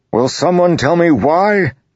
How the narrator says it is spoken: Dalinar bellowed

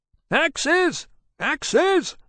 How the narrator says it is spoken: the lieutenant was shouting

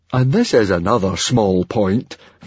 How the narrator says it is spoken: Fishlegs grumbled

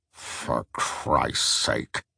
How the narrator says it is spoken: grumbled Truss

